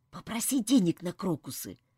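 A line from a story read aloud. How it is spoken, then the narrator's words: Whisper. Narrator (Russian): прошептал он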